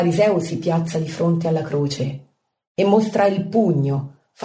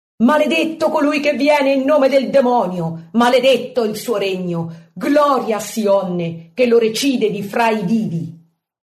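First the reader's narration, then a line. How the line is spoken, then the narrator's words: Mocking chanted shouts. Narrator (Italian): Altri, scimmiottando gli osanna della Domenica delle Palme, gridano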